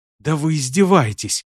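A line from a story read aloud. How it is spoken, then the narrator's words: Resigned whisper. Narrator (Russian): обреченно прошептал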